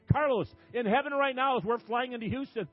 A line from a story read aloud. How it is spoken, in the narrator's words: the angels are shouting